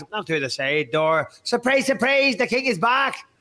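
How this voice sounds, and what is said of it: Put-on Northern Irish accent. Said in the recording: “I can't do a fucking Irish accent like that... I can't fucking do a McGregor one. I could do a Northern Irish accent.”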